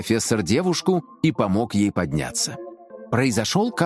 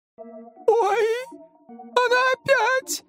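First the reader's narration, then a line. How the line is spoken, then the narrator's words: Frightened exclamation. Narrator (Russian): испуганно показала Лиза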